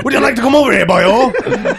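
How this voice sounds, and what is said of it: Put-on Welsh accent. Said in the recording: “You've just experienced the Welsh.”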